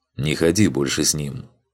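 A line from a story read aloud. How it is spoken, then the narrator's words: Quiet. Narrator (Russian): Марак тихо произнес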